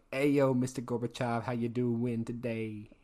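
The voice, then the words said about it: 80s hip-hop style voice. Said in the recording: “I thought you were doing like a 80s hip-hop thing there. ... I was trying to have like a New Jersey accent ... that does sound like a New Jersey accent”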